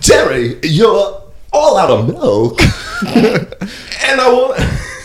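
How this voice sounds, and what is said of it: Imitates another person's voice. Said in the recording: “That's a very good Michael Richards.”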